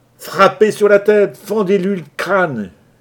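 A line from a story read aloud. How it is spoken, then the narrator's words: Yelling. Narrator (French): hurlait Johnson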